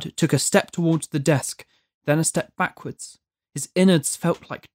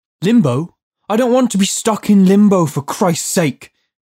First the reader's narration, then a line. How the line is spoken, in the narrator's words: Judd yelled